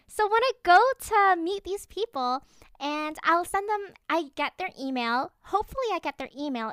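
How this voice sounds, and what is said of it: Very high-pitched, chipmunk-like female voice. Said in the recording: “my voice is already pretty high-pitched ... I'm this girl, the one with a really high-pitched voice ... the one that sounds like a chipmunk”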